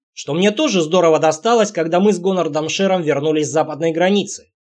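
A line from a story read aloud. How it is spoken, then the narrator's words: Grumbling. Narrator (Russian): пробурчал Стоук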